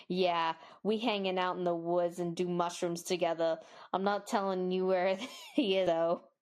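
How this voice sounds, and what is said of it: Put-on Boston accent. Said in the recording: “I love the Boston accent you used with that. ... I'm from Boston doing mushrooms. The only accent that I can do.”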